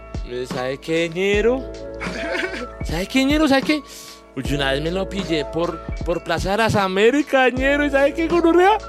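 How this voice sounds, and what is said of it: Imitated Bogotá rolo accent. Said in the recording (Spanish): “me encanta cuando nos imitan los paisas, nuestro acento rolo ... tu, mejor versión de rolo”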